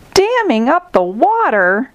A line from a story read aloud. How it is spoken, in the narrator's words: exclaimed Zebra